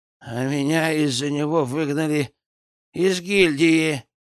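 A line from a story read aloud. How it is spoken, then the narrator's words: Babbling. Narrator (Russian): лепетал первый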